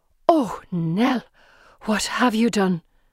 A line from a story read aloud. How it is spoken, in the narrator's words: The nurse gasps